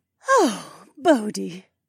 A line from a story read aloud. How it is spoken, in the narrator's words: Velrala sighed